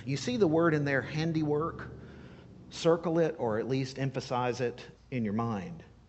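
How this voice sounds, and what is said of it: Noticeable regional accent. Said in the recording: “my accent's coming out today”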